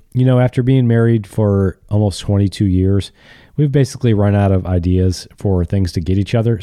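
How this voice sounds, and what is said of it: Slightly congested, sick voice. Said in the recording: “You might hear it in my voice a little bit. I've got a cold.”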